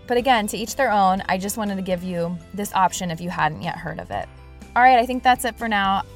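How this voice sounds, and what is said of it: Congested voice from a cold. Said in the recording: “As you can probably tell in my voice, I have a bit of a cold. ... it's starting to hurt to talk”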